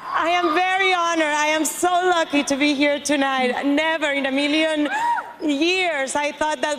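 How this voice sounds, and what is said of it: Strong foreign accent. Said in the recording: “with this ridiculous accent”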